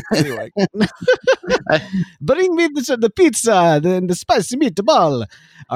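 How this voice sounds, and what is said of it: Put-on Italian accent. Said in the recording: “It's really hard to do an Italian accent on a podcast ... I am actively doing that”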